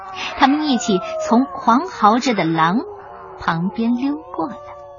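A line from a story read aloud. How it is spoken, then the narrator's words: Low voice. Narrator (Chinese): 尼克低声对朱迪说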